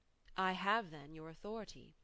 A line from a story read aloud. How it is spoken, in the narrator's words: I returned, firmly enough, although I flushed at the implied reproof